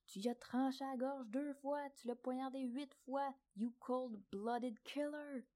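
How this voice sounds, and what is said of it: Shouted imitation of an angry man. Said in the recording (French): “il s'est levé puis a crié ... J'espère que mon imitation est”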